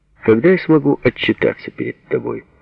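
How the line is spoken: Dry businesslike question. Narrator (Russian): сухо-деловито спросил Сережа

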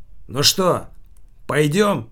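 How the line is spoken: Shouting from afar. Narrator (Russian): Не приближаясь к столику, крикнул Килькин

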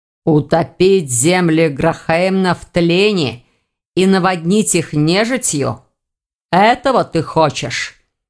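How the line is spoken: Growled. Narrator (Russian): прорычал Элгар

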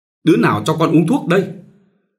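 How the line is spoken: Wailing loud shout. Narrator (Vietnamese): bù lu bù loa bà thét gọi Minh

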